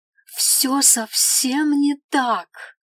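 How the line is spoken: Desperate elf exclaiming. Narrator (Russian): практически с отчаянием воскликнул эльф

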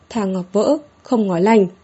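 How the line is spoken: Loud, raised voice. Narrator (Vietnamese): hít sâu một hơi, cao giọng nói

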